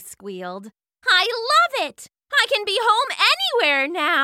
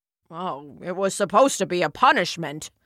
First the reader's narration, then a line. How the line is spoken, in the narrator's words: Zeus grumbled